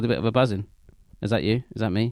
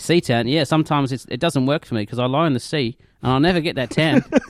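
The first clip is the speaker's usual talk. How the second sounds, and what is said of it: Put-on Australian accent. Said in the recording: “Love Australia... I don't think I want to do this accent there”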